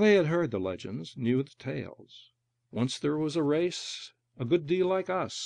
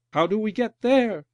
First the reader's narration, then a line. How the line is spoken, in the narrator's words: the newborn 19th cried, filled now with knowledge